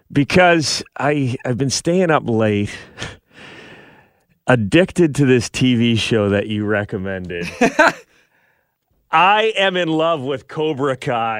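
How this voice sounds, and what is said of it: Slightly rough, tired voice. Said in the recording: “my voice is a little rough this morning. I'm feeling a bit run down”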